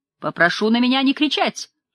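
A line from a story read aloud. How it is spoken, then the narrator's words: Sudden bark. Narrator (Russian): Вдруг рявкнул Стриж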